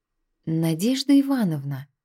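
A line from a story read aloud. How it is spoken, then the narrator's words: Gentle, careful question. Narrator (Russian): ласково, будто боясь спугнуть, спросил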